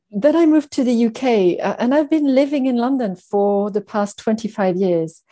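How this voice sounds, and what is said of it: Slight French accent. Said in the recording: “a slight hint of a French accent ... never quite lost the accent”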